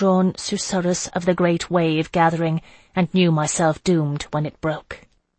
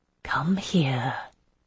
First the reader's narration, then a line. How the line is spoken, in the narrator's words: Melisande whispered, and there was still no order in it